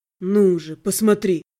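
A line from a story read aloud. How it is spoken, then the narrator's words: Bewitching voice, faint growl. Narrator (Russian): этому колдовскому голосу, с чуть слышными рычащими нотками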